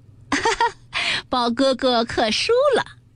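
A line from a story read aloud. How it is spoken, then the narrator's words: Laughing, clapping. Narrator (Chinese): 湘云也拍手笑道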